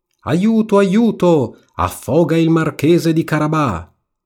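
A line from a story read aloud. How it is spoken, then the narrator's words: Cat shouting at full voice. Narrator (Italian): il gatto si mise a gridare con quanta ne aveva in gola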